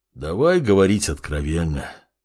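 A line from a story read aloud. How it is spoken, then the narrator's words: Sigh. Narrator (Russian): вздохнул Геолирун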